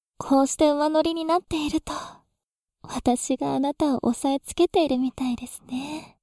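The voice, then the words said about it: Sweet seductive whisper. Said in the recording (Japanese): “甘く囁くような彼女の怪しい声”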